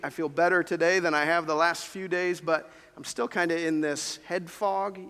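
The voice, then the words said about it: Sick, congested-sounding voice. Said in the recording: “If you can't tell from my voice, I've been fighting off a bit of a cold this week.”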